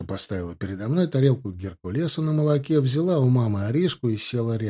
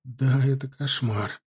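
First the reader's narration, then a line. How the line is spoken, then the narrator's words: Moaning. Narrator (Russian): простонала она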